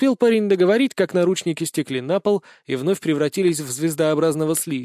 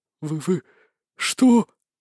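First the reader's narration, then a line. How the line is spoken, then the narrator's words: Stammering question. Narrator (Russian): заикаясь, переспросил левит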